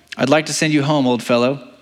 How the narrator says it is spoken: he said

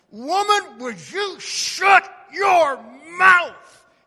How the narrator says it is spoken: He screamed

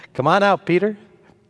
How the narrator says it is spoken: Jesus, I wonder if he chuckled a little bit to himself, says

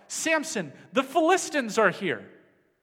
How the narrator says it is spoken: she cried out

